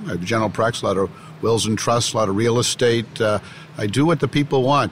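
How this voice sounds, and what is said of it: Boston accent. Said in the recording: “I come from Boston, if you can't tell from my from my accent”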